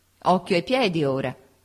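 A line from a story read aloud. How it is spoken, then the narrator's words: Wife laughing. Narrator (Italian): disse mia moglie ridendo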